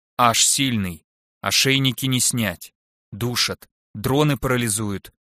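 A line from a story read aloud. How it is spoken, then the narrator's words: Clipped, abrupt listing. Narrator (Russian): отрывисто перечислил Аарон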